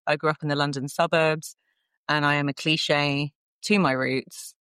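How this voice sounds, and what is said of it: Southern English accent. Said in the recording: “you can probably tell, people who listen can tell by my accent, I'm from the south of England.”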